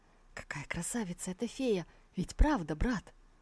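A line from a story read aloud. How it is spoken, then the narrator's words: Reluctant, through clenched teeth. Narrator (Russian): Тантайдзиню ничего не оставалось, как процедить сквозь стиснутые зубы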